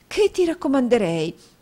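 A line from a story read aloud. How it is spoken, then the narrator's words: Exclaimed. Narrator (Italian): esclamò la signora Nickleby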